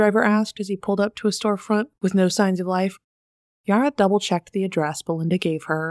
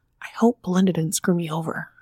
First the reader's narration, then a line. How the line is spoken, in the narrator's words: under her breath